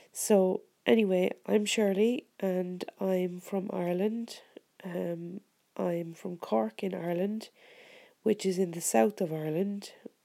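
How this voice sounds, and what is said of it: Sick, congested voice. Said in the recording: “my voice sounds a bit funny at the moment, but I'm sick with a sore throat and a head cold”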